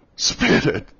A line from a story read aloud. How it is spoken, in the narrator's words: he cried, tight